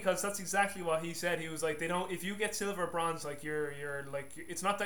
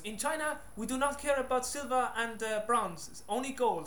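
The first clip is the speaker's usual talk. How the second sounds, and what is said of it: Put-on Chinese accent. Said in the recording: “my Chinese impression”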